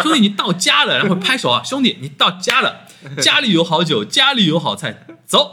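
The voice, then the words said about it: Northeastern Chinese accent. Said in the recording (Chinese): “一个东北的哥们儿，一听就东北口音”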